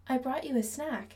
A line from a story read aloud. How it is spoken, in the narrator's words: she says